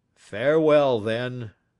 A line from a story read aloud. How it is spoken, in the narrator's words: said the old man solemnly